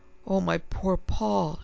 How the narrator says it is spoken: sobbed

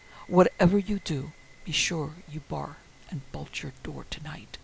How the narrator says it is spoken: he almost whispered with a fierce intensity

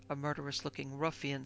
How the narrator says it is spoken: said another

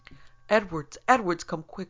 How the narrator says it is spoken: cried Charlie

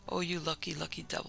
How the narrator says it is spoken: he whispered

